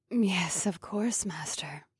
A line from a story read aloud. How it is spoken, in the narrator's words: the elvish witch purred